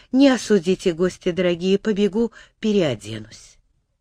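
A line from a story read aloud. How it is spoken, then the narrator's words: Flustered hurried mumble. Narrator (Russian): та вспыхнула и поспешила уйти, пробормотав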